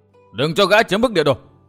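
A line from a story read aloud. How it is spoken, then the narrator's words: Crowd shouting. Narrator (Vietnamese): Quần hùng hắc bạch vừa quát tháo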